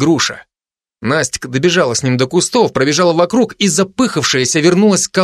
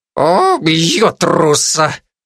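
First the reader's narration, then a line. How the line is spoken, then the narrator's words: Parrot through teeth. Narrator (Russian): Процедил попугай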